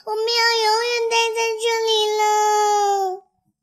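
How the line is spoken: Crying. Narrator (Chinese): 小熊开始哭起来

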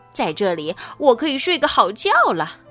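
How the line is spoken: Excited squawking. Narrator (Chinese): 福特斯兴奋地用尖嘴呱呱叫着

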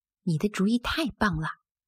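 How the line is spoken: Low voice. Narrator (Chinese): 康妮低声说

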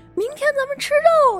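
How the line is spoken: Shouting. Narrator (Chinese): 他们组员冲她喊说

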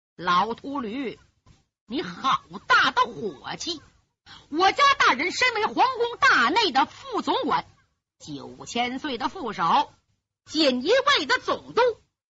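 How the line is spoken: Sinister eerie laugh. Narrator (Chinese): 大鬼尾之远阴森森的怪笑

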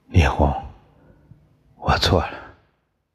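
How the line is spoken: Murmuring. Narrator (Chinese): 宋刚喃喃地说

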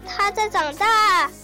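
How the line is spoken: Exclaiming. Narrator (Chinese): 乔治他叫道

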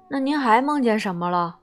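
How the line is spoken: Plain. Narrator (Chinese): 魔鬼问

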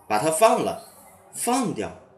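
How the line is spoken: Loud voice. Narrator (Chinese): 斯米大声说

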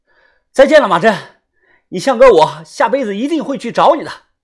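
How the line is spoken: Shouting. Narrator (Chinese): 我对着河水大喊

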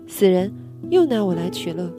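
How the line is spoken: Exasperated. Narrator (Chinese): 妻子哭笑不得，嘴里说

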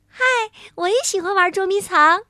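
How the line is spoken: Happy call. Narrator (Chinese): 小松鼠 高兴地朝他喊

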